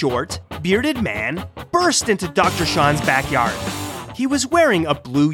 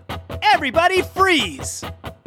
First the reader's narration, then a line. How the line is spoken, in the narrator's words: someone shouted through a bullhorn